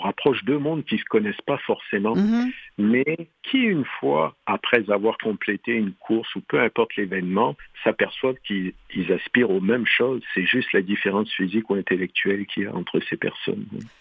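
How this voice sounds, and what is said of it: French accent from France. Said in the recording (French): “il a le même accent ... On est deux Français d'origine, mais on vit au Québec depuis plus de 30 ans”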